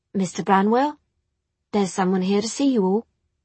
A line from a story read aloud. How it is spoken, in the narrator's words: said, hesitantly